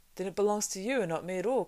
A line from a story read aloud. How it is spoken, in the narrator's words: cried Frodo in amazement